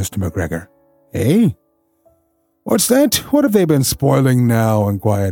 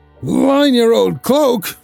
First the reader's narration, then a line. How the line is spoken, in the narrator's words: shouted Mr